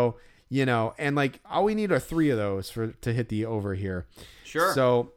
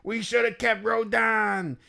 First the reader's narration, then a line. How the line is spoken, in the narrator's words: someone yelling